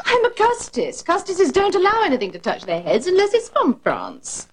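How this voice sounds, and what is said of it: British accent. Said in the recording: “why does she have a British accent? ... she said it fucking weird”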